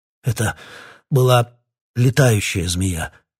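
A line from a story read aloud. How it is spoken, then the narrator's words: Hoarse, breathless explanation. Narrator (Russian): хрипло дыша объяснил Питер Марлоу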